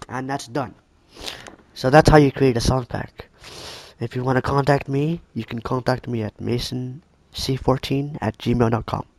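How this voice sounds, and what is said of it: Voice sounds off, unwell. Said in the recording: “Sorry for my voice. I'm having an allergy attack.”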